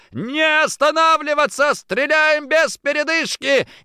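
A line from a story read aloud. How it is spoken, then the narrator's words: Shouted order. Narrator (Russian): Я выкрикнул приказ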